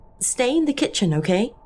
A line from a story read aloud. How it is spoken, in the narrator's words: I said